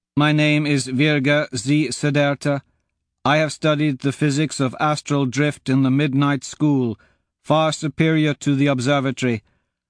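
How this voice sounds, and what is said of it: Slow accented woman's voice. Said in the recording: “shouts a woman in that slow accent”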